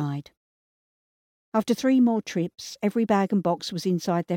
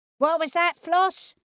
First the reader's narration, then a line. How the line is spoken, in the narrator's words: yelled her mother